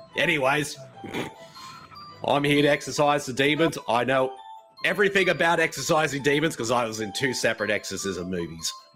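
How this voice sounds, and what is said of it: Exaggerated put-on accent. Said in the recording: “Your big accent sucks shit.”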